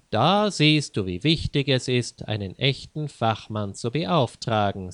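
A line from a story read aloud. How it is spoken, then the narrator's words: Plain. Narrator (German): sagte Leo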